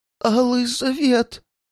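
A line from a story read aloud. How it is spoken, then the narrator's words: Trembling frightened mutter. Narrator (Russian): Дрожащим голоском пробормотал один из противников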